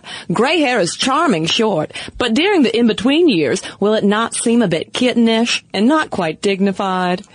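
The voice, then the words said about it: Mid-Atlantic old-school accent. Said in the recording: “You do a mean mid-Atlantic old-school accent”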